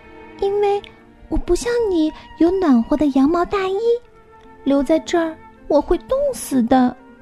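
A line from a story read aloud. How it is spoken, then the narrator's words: Loud question. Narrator (Chinese): 小羊大声的问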